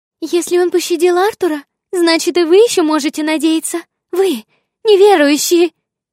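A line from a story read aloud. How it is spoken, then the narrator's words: Shouting after. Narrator (Russian): кричала Аннабель нам вслед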